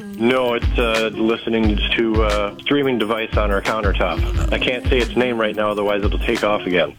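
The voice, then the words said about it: Congested, slightly sick-sounding voice. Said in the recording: “you sound a little sick. ... I am a little stuffed up”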